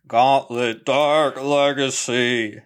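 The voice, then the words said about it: Don Pardo announcer impression. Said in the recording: “That sounded like Don Pardo. That was bad.”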